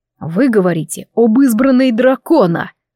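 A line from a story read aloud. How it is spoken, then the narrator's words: Growl. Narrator (Russian): рыкнул Кайвин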